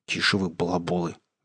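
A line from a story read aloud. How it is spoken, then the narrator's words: Hissed. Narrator (Russian): зашипела Алиса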